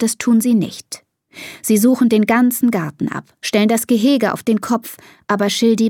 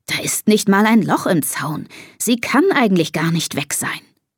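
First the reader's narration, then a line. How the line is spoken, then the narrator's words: Father's murmur. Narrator (German): murmelt Papa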